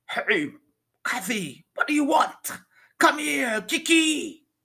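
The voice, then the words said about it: Deep, loud heavy Caribbean accent. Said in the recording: “her deep Caribbean accent could be heard, a very loud and clear, heavy voice ... Speaking in some sort of island dialect jargon”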